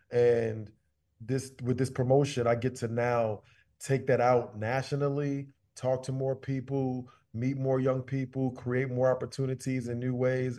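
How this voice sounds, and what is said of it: New York accent. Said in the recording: “this dude's got this New York accent. He sound like comedian Tracy Morgan”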